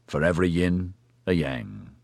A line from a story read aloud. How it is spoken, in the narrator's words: Oscar murmured grimly